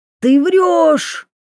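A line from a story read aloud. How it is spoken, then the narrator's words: Shouting again. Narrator (Russian): второй раз закричал Идзуми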